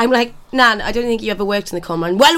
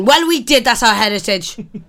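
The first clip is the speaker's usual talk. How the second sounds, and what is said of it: Exaggerated Welsh accent. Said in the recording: “talking really Welsh ... She go very Welsh”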